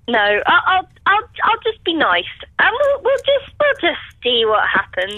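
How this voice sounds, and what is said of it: Slightly whiny voice. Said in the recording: “You've got a slightly whiny voice.”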